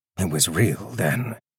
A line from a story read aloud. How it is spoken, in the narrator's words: Roderick mutter